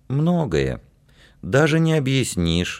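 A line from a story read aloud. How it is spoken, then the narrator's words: Sighing. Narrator (Russian): вздохнула Данка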